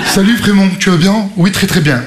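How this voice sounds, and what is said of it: Put-on Parisian French accent. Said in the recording (French): “Ils ont tous accent parisien.”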